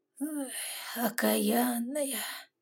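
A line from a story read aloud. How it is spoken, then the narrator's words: Mild quiet grumble. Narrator (Russian): Не сердясь и негромко ворчал он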